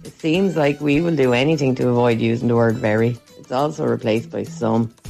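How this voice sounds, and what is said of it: Wexford Irish accent. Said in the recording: “Please vote for the Wexford accent because it's some good accent.”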